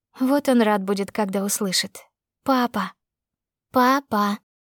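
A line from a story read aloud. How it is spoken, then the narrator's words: Eager but slow. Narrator (Russian): повторил он с готовностью, хоть и медленно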